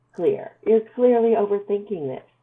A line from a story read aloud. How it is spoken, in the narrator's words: Melanie told him, laughing herself